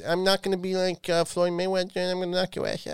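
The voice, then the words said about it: Imitates another person's voice. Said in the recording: “I was doing an impression of what Mike Tyson sounds like ... they weren't bad impressions”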